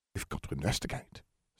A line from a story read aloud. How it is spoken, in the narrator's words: said Jenny, her voice a low, excited whisper